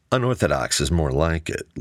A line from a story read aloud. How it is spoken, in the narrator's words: Luke replied calmly